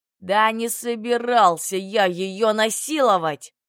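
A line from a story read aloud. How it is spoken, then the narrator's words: Roaring. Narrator (Russian): Взревел Белесый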